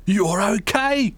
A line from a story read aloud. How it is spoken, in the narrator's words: he yelled